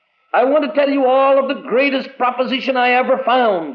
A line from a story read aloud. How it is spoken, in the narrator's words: he cried